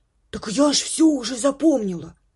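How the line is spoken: Loud whisper. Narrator (Russian): громким шепотом ответила Миг

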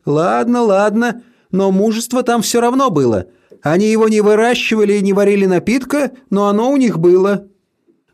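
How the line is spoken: Groaning reply. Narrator (Russian): Бабушка застонала в ответ

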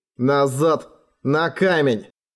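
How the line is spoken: Rough command. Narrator (Russian): грубо приказал он

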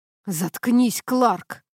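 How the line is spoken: Growling. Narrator (Russian): прорычал Колин

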